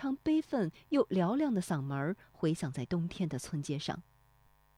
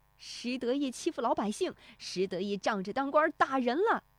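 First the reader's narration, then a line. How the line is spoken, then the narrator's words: Cursing, shouting. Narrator (Chinese): 石德昌嗷嗷咒骂着，一路叫喊着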